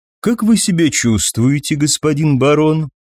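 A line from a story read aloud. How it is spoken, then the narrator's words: Polite social inquiry. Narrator (Russian): светским тоном поинтересовался Тракин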